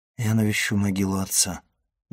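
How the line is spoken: Muffled reply. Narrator (Russian): глухо ответил Максимилиан

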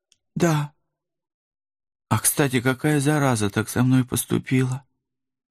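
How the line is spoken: Oddly calm voice. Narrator (Russian): Парадоксально спокойным голосом закончила рыжая охотница

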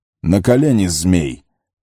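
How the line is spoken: Sudden thundering. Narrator (Russian): прогремел он вдруг

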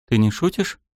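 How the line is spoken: Plain. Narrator (Russian): спросил он

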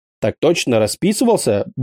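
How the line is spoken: Brisk, mock-cheerful report. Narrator (Russian): бодро отрапортовал я, продолжая валять дурочку

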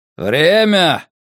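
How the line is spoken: Shout. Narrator (Russian): крикнул Касс

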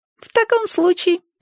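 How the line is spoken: Squeaky voice. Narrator (Russian): пропищал Проныра

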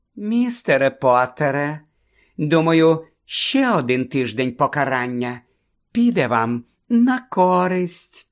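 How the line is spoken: Unctuous, sugary voice. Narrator (Ukrainian): єлейним голосом повідомила професорка Амбридж

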